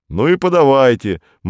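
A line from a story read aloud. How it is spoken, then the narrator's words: Gloomy. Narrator (Russian): мрачно сказал Корнеев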